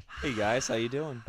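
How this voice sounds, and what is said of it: Radio announcer voice. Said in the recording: “throwing radio voice at us”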